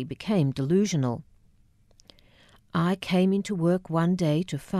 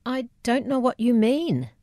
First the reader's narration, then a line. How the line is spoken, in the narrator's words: I stammered